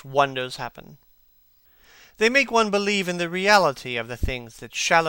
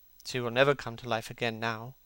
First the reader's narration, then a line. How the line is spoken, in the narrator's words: murmured the lad